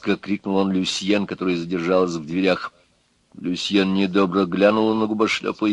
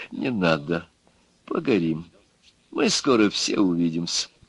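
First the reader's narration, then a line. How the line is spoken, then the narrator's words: Said softly. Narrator (Russian): губошлеп мягко сказал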